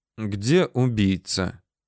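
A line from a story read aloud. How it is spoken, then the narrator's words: Impassive question. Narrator (Russian): Все тем же бесстрастным тоном спрашивал секретарь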